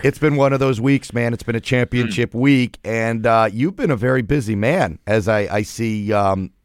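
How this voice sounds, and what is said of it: Strained, fading hoarse voice. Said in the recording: “As you can hear, I am losing my voice.”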